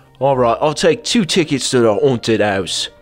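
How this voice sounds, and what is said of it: Put-on British accent. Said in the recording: “his voice would be changing to a British accent”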